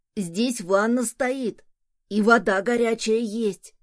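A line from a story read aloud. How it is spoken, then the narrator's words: Son shouting behind door. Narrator (Russian): крикнул сын из-за двери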